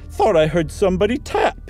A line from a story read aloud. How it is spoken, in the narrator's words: he said with a shamefaced laugh